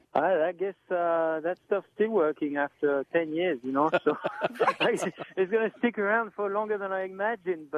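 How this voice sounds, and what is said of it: Speaks with a noticeable foreign accent. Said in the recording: “I can't get rid of my accent, can't get rid of my gesture and the way I am”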